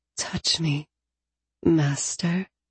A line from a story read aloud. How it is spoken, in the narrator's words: I breathed